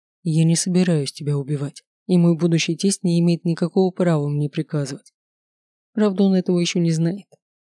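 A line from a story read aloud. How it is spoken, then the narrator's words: Gloomy. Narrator (Russian): добавил мрачно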